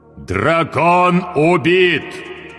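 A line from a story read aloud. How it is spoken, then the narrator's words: Loud iron proclamation. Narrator (Russian): провозгласил он железным голосом так громко, что услышали все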